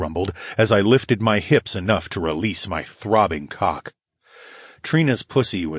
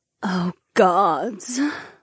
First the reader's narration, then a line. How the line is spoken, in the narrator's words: Marina sighed into my ear